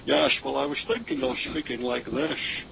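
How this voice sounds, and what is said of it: Sean Connery impression. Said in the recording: “Or someone like Sean Connery. ... Let me hear your accent, Sean.”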